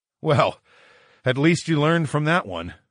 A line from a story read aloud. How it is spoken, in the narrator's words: chuckled